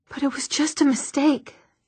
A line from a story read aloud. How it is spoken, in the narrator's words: Alec whispered